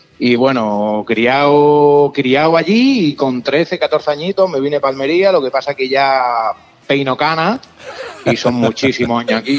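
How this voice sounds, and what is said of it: Strong Almería Andalusian Spanish accent. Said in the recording (Spanish): “conozco a gente de Almería que tiene menos acento de Almería que tú”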